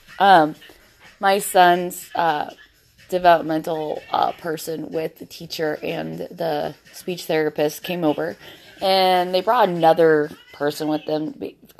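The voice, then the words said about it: Husky, sick-sounding voice. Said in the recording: “I am sick as a fucking dog right now ... You can tell my voice is a lot more husky”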